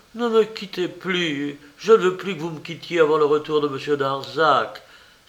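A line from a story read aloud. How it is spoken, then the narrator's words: Terrified woman crying out. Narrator (French): s'écria-t-elle pleine d'effroi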